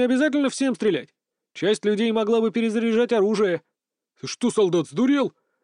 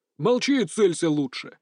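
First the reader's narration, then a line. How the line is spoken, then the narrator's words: Rough bass voice. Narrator (Russian): грубо пробасил в мою сторону унтер-офицер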